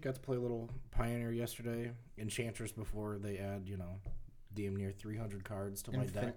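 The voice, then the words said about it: Slightly sick-sounding voice. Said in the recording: “Kind of coming down with a little something, so if my voice is a little off”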